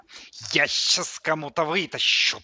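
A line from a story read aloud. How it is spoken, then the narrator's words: Lisping through headphones. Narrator (Russian): прошепелявил наушниками плеер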